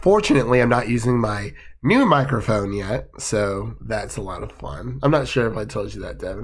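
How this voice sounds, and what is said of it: Slightly raspy voice. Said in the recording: “my voice is a little raspy today. I'm kind of have like half of a cold”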